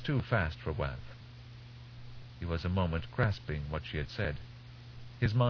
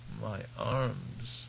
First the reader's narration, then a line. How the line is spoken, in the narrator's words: Waff moaned